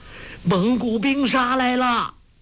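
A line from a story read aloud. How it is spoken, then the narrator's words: Wailing crowd shouting. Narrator (Chinese): 众难民嚎叫呼喊，哭声震天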